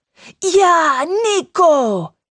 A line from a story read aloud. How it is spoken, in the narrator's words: Enzo shouts with excitement